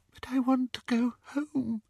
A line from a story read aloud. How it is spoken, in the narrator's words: whispered the girl